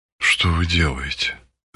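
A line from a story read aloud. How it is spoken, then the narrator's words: Flustered whisper. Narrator (Russian): растерянно проговорила шепотом Марина Александровна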